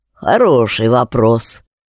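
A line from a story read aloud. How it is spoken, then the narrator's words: Mutter. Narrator (Russian): пробормотал Семен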